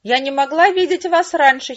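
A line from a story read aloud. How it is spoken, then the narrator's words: Giggling. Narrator (Russian): хихикал он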